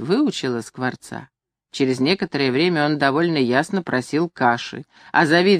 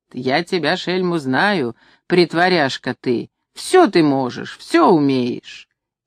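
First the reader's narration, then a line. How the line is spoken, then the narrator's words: Old woman laughing joyfully. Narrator (Russian): Старуха смеется радостно, говорит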